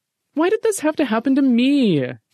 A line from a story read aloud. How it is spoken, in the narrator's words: Jeffy whined